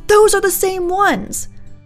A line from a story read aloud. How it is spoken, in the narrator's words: Mom screamed